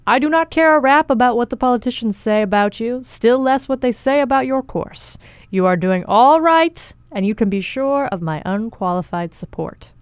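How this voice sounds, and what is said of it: Imitates another person's voice. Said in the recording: “That's a great Teddy Roosevelt impersonation.”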